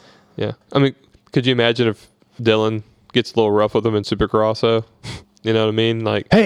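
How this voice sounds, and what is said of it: Usual voice. Nothing is said of it.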